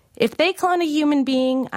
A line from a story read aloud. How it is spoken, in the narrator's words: I shouted back